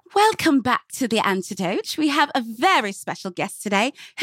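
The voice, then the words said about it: Put-on British accent, fairly decent. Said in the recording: “can I show you my British accent? ... That wasn't bad at all.”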